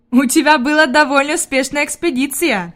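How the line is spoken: Laughing. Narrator (Russian): засмеялся господин Сесман

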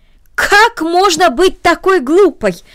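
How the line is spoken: Aunt's exclamation. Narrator (Russian): воскликнула тетя

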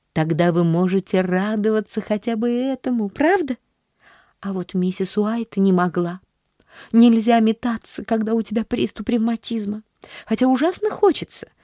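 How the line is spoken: Plain. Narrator (Russian): говорит миссис Уайт

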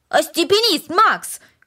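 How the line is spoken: Shout. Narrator (Russian): крикнул Дино

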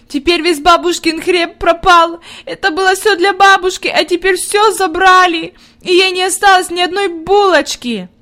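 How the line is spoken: Inconsolable sobbing. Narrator (Russian): Она рыдала так, что казалось, нет ей никакого утешения

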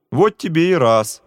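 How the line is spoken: Laughing. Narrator (Russian): засмеялся товарищ

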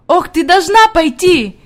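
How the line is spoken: Shouting while moving. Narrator (Russian): кричала она на ходу

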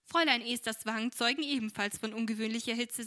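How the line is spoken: Laughing. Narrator (German): sagte Frau Brookley lachend

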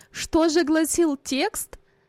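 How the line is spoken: Laughing. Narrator (Russian): засмеялась мать

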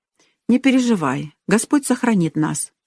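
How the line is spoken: Father's calm reply. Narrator (Russian): спокойно ответил отец

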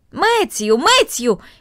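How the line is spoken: Shout calling into distance. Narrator (Russian): крикнула она в направлении большой конюшни и амбара

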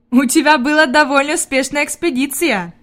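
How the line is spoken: Laughing. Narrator (Russian): засмеялся господин Сесман

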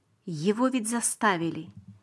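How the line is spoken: Sad father. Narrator (Russian): сказал папа печально

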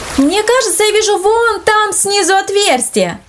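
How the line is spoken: Exclaiming. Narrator (Russian): воскликнул Андрей

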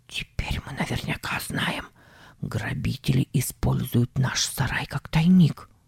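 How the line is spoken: Whispered. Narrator (Russian): Он сказал шепотом

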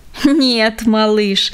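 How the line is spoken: Grandfather laughing. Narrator (Russian): засмеялся дедушка

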